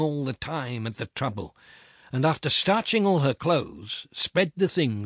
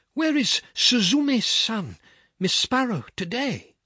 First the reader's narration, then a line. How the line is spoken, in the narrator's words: he called her and said anxiously